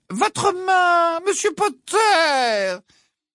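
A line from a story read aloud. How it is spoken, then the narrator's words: Sing-song interrupting. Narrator (French): l'interrompit le professeur Ombrage d'une voix chantante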